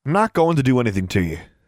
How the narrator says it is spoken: he sighed

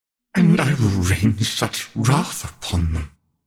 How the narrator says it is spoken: Camille muttered

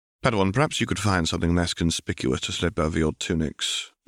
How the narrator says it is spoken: Ben says quietly

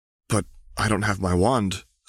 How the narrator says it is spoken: stammered Harry

